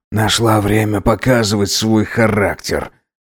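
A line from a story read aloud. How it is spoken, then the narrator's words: Muttered through clenched teeth. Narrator (Russian): сквозь зубы пробормотал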